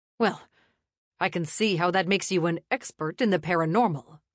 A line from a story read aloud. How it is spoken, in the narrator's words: he said with a snort